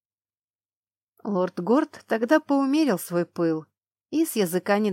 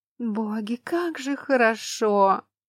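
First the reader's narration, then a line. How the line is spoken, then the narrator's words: Blissful moan. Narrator (Russian): простонала Шарлин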